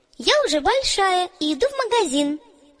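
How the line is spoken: Cheerful reply. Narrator (Russian): весело ответила Оля

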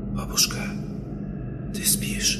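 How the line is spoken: Whispered question. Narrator (Russian): Я шепотом спросил

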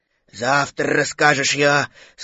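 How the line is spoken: Sleepy voice. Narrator (Russian): сказал Пух сонным голосом

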